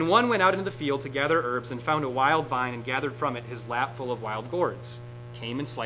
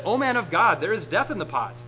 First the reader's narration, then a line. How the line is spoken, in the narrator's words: they cried out and said